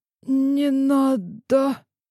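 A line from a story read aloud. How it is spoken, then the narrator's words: Hoarse interruption. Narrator (Russian): Охрипший голос Ильи прервал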